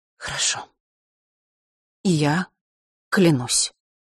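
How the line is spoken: Quiet but firm. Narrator (Russian): тихо, но твердо сказала Елена

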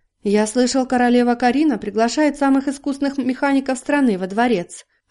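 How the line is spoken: Plain. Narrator (Russian): ответил гость

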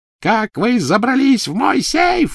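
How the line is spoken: Shrieking. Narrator (Russian): визжала Беллатриса

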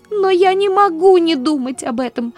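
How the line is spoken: Sobbing. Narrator (Russian): зарыдала она

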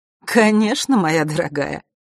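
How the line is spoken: Snorting. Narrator (Russian): фыркнула Черная королева

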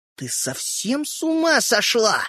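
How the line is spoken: Hiss. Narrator (Russian): прошипел Родька

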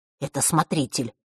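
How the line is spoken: Whisper. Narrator (Russian): шепнул Ник Василисе

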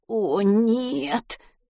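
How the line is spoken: Groaning. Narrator (Russian): простонал Матвей

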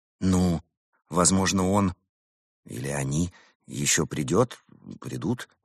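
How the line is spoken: Uncertain suggestion. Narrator (Russian): неуверенно предположила Берта

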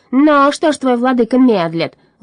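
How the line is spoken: Angry shout. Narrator (Russian): злобно закричал он

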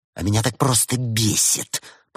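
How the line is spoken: Angry hiss. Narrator (Russian): прошипела актриса

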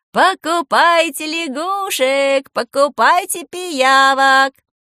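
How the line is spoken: Sing-song vendor call. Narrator (Russian): Нараспев предлагала толстенькая продавщица

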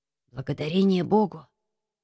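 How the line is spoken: Quiet voice. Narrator (Russian): сказал тихим голосом

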